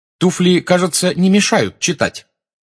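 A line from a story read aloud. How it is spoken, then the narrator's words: Irritated question, woman. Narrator (Russian): раздраженно спросила блондинка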